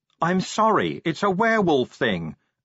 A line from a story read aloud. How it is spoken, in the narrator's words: Angua yelled